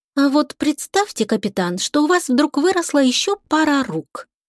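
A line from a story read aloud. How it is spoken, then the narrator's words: Thoughtful reply. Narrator (Russian): задумчиво ответила Лика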